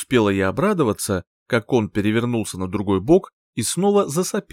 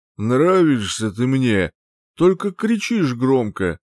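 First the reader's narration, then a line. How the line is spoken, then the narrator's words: Mumbled. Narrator (Russian): Промямлил он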